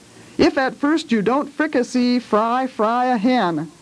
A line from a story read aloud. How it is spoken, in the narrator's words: began to recite in a very loud voice